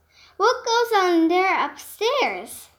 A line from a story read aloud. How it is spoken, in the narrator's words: he called out